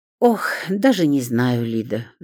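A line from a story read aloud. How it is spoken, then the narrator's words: Sighing. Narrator (Russian): вздохнула Зоя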